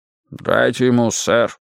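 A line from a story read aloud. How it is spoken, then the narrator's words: Calm, boatswain. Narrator (Russian): спокойно сказал боцман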